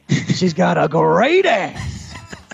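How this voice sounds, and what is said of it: Fairly good imitation of another person's voice. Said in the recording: “Give me that Pacino one more time. ... That's a pretty good impression. ... It's not bad.”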